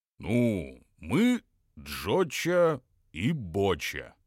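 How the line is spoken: Hesitant, unsure. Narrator (Russian): как-то неуверенно заговорил Боча

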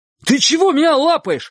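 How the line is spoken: Terrified shout. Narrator (Russian): в ужасе крикнул Чик

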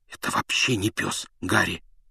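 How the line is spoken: Pained, through gritted teeth. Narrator (Russian): выдохнул Рон, скрипя зубами от боли

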